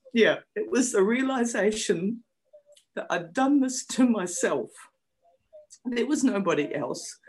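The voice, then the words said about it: Emotional, choked-up speech. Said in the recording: “I'm gonna get a bit emotional.”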